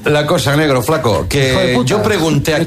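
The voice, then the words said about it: Put-on Argentine Spanish accent. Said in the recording (Spanish): “¿Te sale el acento? ... Sí, me sale el acento”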